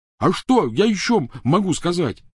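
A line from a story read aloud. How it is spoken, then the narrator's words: Yelled. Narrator (Russian): заорал Рон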